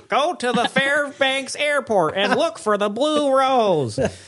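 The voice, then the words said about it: Imitates another person's voice. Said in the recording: “my David Lynch impersonation”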